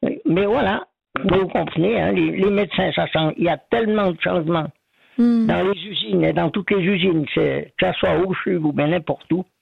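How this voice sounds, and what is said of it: Swiss French Ormonds regional accent. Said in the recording (French): “moi, j'ai l'accent du pays d'en haut, des Ormonds ... Il est très beau, votre accent des Ormonds”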